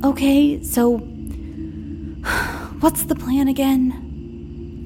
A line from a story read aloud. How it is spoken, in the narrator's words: I sighed